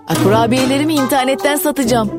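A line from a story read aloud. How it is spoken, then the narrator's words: Shouted. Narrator (Turkish): diye bağırdı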